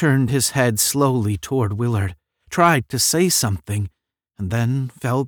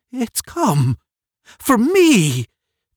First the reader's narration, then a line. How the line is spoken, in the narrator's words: Dobbin cried